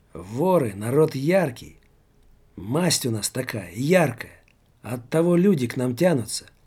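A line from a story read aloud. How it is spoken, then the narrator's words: Exclaiming. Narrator (Russian): воскликнул Жора-людоед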